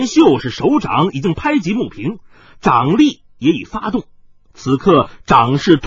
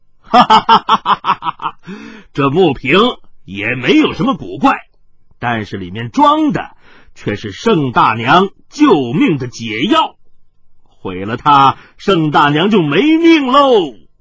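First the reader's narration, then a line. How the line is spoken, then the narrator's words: Laughing loudly. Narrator (Chinese): 海大少大笑着说道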